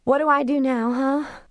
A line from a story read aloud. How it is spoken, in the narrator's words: she asked in a teary, tired voice